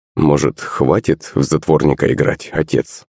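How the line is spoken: Quiet. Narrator (Russian): Тихо обратился

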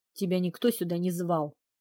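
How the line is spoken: Growling retort. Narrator (Russian): рыкнула в ответ

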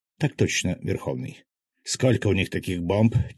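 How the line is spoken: Quiet question. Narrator (Russian): тихо спросил

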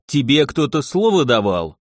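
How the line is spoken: Snapped. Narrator (Russian): огрызнулся

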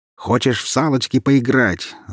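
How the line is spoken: Young man yelling. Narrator (Russian): заорал парень

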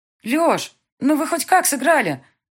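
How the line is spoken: Calling after someone. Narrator (Russian): Крикнула ему вдогонку Мика

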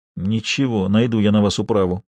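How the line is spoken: Almost silent mutter. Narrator (Russian): пробормотал Нариманов уже почти беззвучно

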